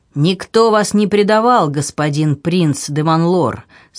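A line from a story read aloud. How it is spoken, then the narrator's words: Stern. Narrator (Russian): строго молвил человек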